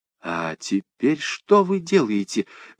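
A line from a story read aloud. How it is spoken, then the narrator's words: Excited whisper. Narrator (Russian): возбужденно зашептал я ему на ухо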